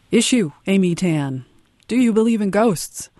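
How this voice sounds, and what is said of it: Imitates a different show's host. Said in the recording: “my best impersonation of another kind of show”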